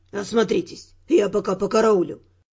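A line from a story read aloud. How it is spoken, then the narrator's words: Whisper. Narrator (Russian): шепнул Дюран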